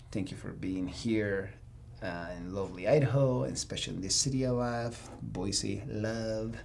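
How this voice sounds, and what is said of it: Noticeable regional accent coming through. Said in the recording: “The accent is kicking in because of the beer.”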